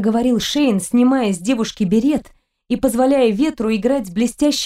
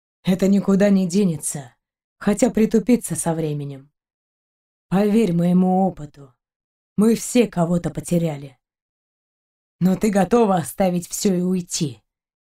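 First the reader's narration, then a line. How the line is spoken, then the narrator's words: Gentle question. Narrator (Russian): мягко спросил Шейн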